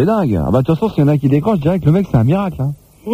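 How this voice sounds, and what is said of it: Usual voice. Nothing is said of it.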